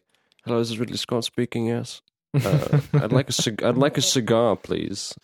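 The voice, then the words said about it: Imitates another person's voice. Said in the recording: “I cannot do an impression of Ridley Scott ... We just try to do it sometimes.”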